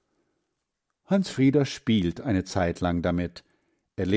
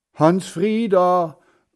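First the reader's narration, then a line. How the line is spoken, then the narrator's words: Grandfather calling out. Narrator (German): ruft Großvater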